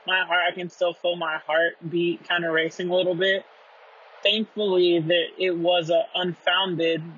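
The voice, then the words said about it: Jittery, shaky voice. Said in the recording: “I'm still jittery. You, it, you could probably hear it in my voice.”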